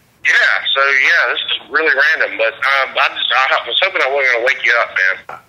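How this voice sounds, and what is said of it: Southern American accent. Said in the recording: “it was just like a guy with a southern accent.”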